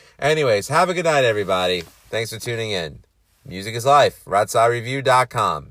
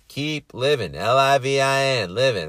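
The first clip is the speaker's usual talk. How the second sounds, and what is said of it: Matthew McConaughey impression. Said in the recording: “Why the fuck am I impersonating McConaughey?”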